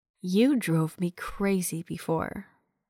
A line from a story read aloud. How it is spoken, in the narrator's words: purred